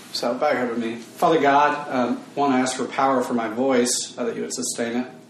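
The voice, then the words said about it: Strained, failing voice. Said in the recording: “My voice is slowly going... if I sound a little bit funky”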